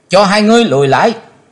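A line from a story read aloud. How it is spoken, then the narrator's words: Loud shout. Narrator (Vietnamese): Chí Tôn hét to lên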